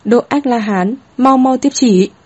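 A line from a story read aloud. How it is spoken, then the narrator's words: Raised voice, middle-aged eunuch. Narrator (Vietnamese): Thái giám trung niên, cao giọng nói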